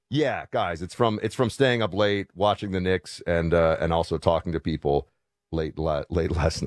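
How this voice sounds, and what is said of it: Hoarse, deeper than usual voice. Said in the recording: “your voice seems to be like an octave deeper today ... It is hoarse because I was talking until late last night ... my voice is a little bit shot ... The back of my throat is scratched up”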